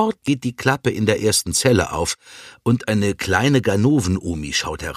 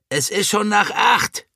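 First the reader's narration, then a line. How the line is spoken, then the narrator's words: Hissing snap. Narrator (German): faucht sie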